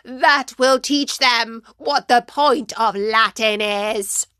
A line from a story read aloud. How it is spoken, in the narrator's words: Felix, who spat out